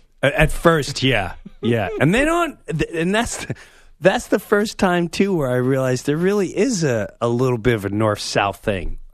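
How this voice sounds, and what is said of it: New York accent. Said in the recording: “Where you get that accent from? ... New York.”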